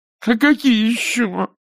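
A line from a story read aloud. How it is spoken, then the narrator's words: Nasal, sobbing. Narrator (Russian): прогнусавила баба, всхлипывая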